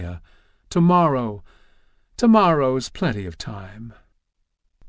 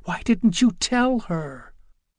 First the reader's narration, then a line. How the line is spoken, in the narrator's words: Francine whispered frantically